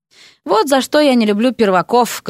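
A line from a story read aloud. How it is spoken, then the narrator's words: Loud sigh. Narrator (Russian): громко вздохнул Эрик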